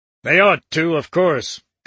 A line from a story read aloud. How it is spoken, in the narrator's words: Dickinson said with a grumble